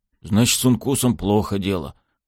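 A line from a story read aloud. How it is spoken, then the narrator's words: Muttered. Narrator (Russian): буркнул кто-то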